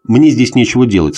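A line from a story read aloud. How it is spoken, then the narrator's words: Plain. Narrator (Russian): сказал он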